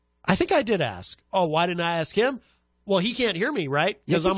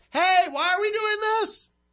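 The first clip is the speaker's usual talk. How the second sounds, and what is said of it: Yelling. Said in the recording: “I'm yelling so he can hear me.”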